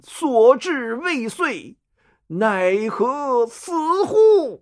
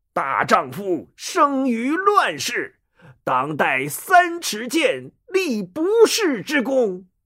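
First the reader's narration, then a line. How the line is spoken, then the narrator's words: Loud, dying last effort. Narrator (Chinese): 太史慈用尽最后的力气，大声说道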